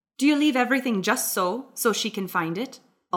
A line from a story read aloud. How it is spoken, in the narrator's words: Alton asked